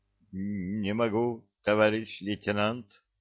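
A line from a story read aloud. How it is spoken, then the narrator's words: Soldier groaning. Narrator (Russian): стонал рядовой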